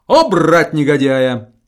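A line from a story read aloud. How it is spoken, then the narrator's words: Exclaiming. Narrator (Russian): сверкнул очами, воскликнув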